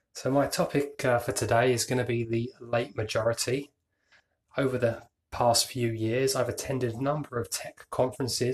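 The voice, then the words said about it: British accent. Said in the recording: “someone with a British accent speak”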